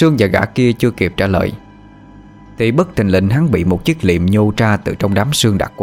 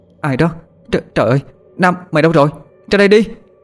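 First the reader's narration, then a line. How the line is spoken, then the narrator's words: Frightened calling, woman. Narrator (Vietnamese): Cô ta vừa gọi, mắt mũi bắt đầu tái mét sợ hãi đi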